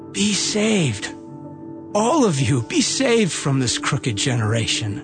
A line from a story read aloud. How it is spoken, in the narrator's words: pleaded with them, saying